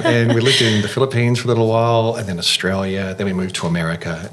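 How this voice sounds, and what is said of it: International accent, faint Taiwanese hint. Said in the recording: “it's an international accent, I suppose they call it ... maybe there's a little bit of Taiwanese creeping through my accent”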